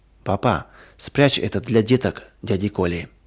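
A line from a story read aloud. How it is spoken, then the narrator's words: Whisper. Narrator (Russian): Зоя прошептала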